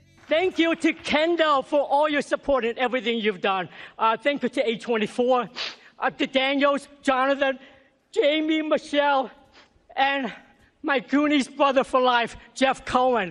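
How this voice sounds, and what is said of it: Speaks with a noticeable accent. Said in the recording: “Didn't lose his accent either.”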